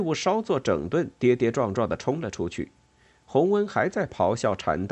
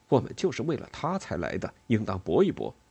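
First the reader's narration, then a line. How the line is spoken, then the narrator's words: Prince, soft voice. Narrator (Chinese): 王子轻声说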